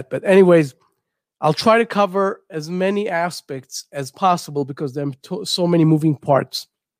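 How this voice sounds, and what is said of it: Congested voice with a cold. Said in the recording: “I have a cold and I'm trying to compensate for that.”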